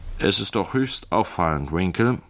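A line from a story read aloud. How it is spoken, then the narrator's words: Plain. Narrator (German): sagte Mr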